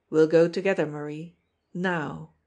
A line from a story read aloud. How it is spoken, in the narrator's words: he said calmly